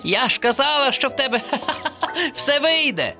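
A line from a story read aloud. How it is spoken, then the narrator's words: Laughing. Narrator (Ukrainian): засміялася черепашка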